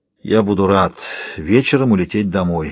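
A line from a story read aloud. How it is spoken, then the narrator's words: Says tiredly. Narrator (Russian): говорит устало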